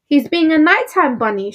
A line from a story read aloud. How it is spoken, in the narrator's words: cried